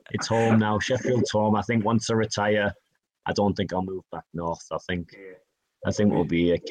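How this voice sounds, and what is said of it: Northern English Yorkshire accent. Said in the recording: “I'm from the Northeast ... I've got a Yorkshire accent.”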